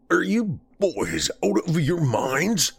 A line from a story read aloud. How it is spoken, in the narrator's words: Walters snapped